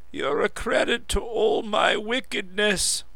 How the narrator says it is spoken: chuckled the old man

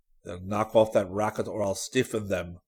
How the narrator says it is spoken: Nails growled

